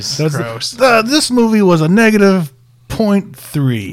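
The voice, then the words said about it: Imitates another person's voice. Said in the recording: “Great Cosby impression”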